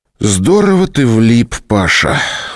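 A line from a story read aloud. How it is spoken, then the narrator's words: Sighing. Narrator (Russian): вздохнул опер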